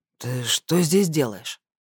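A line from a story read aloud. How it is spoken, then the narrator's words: Strained, coughing after sleep. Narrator (Russian): выдавил Ротор, откашливаясь после сна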